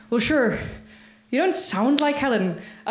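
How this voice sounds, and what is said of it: Put-on Northern Irish accent. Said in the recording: “I'm about to do an accent ... this is a Northern Irish accent. I think we can all agree it's a highly competent one.”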